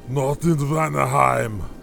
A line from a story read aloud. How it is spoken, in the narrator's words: growled the black-haired warrior